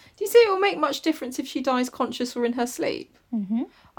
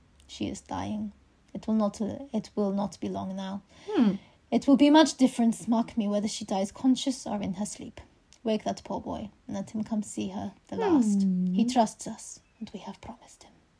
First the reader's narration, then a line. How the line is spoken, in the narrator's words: said calmly